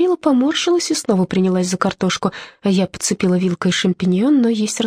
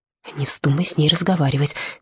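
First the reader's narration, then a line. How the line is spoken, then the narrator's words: Quiet. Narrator (Russian): тихо сказала она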